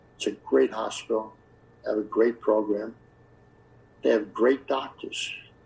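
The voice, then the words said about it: New York accent. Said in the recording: “Long Island. That's my accent. The people don't know a New York accent”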